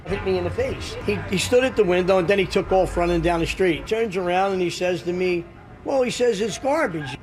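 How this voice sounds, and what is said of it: Noticeable fun regional accent. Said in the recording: “there's a fun accent here”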